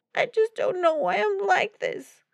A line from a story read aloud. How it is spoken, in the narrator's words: she added with a sob